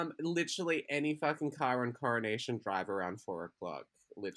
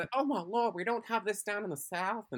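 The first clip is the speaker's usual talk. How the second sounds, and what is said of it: Put-on Southern Belle accent. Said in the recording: “that little Southern Belle accent.”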